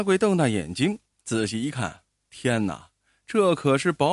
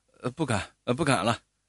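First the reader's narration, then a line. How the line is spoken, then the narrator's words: Stammering. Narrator (Chinese): 阿贵结结巴巴的答话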